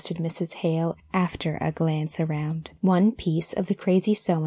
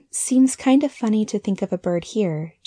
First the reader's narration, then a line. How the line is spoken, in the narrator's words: she half laughed